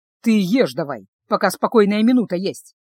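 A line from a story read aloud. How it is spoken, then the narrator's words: Grumbling. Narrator (Russian): проворчал Люк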